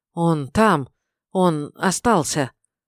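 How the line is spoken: Hoarse, choked words. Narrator (Russian): Слова с хрипом вырывались из горла

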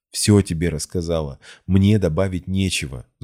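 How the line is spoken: Pleading. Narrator (Russian): взмолилась я

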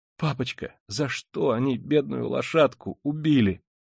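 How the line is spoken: Breathless sobbing cries. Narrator (Russian): всхлипывает он, но дыхание ему захватывает, и слова криками вырываются из его стесненной груди

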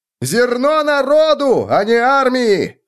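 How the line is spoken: Crowd shouting. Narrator (Russian): кричали одни

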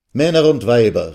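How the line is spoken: Calling out. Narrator (German): rief

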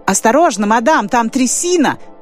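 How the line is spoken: Shouted warning. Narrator (Russian): закричал Вилан

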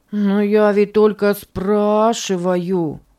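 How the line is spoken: Hurt drawl. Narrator (Russian): обиженно протянул Мартин

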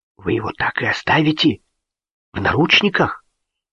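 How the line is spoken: Frightened whisper. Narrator (Russian): испуганным шепотом спросил Грязнов

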